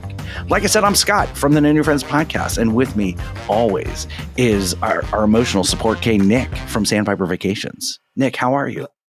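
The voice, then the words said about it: Calm public radio host voice. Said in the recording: “talking like an NPR host”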